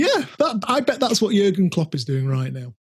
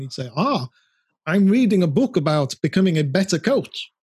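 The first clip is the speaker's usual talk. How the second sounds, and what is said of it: Good put-on German accent. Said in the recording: “Good German accent.”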